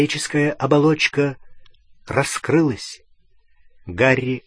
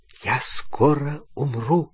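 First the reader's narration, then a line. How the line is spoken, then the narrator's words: Whisper. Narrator (Russian): прошептал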